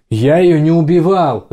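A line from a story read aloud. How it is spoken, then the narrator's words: Yell. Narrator (Russian): заорал Рики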